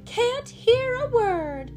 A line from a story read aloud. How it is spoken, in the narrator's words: screamed Melissa